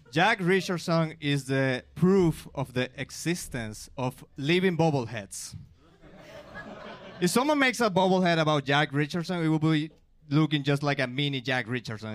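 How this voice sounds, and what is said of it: Non-native English accent. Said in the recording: “the first joke about my accent. But I may sound dumb in my second language”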